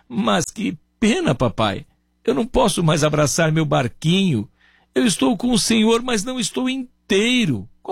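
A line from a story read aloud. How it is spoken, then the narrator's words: Boy sobbing, broken voice. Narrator (Portuguese): o menino, com a voz entrecortada, soluçando, dizia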